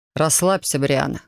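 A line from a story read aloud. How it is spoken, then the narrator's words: Amused snort. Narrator (Russian): хмыкнул он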